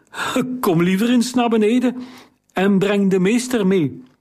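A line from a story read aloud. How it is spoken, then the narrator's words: Shaky-voiced call. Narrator (Dutch): riep met onvaste stem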